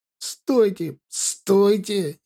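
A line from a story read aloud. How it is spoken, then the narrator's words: Hoarse wheeze. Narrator (Russian): сипел тот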